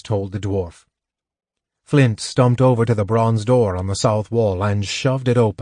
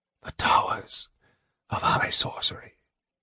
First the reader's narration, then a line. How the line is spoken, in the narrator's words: Raceland whispered